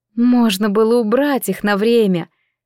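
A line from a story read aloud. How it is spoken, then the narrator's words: Heavy sigh. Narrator (Russian): тяжело вздохнула мама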